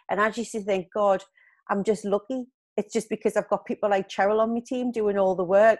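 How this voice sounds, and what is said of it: Geordie accent. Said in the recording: “a girl from a council estate with a proper Geordie accent”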